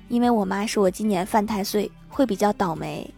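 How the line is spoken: Flat, indifferent. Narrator (Chinese): 女神淡淡的回复说

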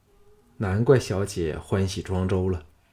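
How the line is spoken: Sighing. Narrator (Chinese): 项少龙叹道

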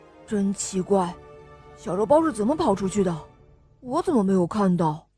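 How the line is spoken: Puzzled muttering. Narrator (Chinese): 小狼纳闷的嘟囔着

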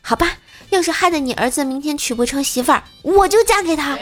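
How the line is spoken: Loudly. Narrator (Chinese): 大声的就说

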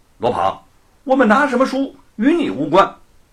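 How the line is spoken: Stern shout. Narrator (Chinese): 罗庞…厉声喝道

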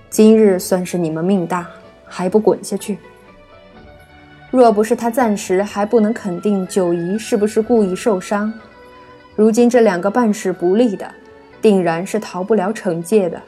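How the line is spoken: Deep stern voice. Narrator (Chinese): 柳灵玉 沉声道

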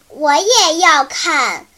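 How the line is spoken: Loud little girl. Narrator (Chinese): 他的小妹妹贾比亚大声地说

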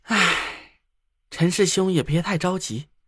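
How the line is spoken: Heavy sigh after pause. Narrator (Chinese): 燕壮沉默了一下，重重的叹了口气

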